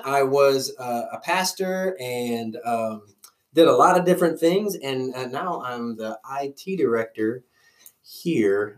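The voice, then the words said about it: Louisiana Southern US accent. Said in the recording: “I'm originally from Louisiana, and my accent will probably come out. Do I have an accent? ... Yes. ... it's normally worse”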